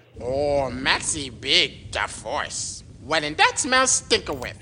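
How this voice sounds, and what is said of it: Jar Jar Binks character voice. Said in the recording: “to be known only as Jar Jar ... my Jar Jar voice”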